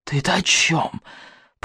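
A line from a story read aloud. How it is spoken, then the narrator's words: Hissed through clenched teeth. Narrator (Russian): прошипел сквозь стиснутые зубы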